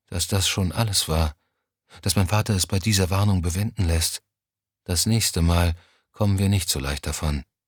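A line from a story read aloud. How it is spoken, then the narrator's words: Quiet, finally. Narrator (German): sagte sie schließlich leise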